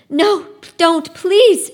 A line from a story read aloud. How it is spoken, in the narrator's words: she cried